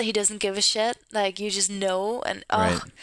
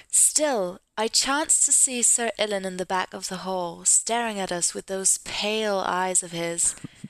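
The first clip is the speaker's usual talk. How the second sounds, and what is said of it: Convincing British accent. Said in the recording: “That is a very convincing British accent.”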